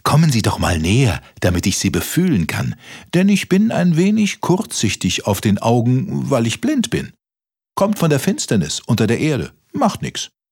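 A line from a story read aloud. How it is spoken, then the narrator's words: Called out. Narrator (German): rief der Maulwurf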